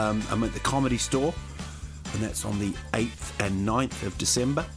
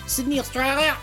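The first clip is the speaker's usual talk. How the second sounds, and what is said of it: High-pitched put-on Australian accent. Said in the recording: “You have to go really high with their accent. ... You can't even go down. Don't go down.”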